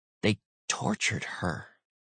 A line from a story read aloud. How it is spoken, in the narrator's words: Brooks said softly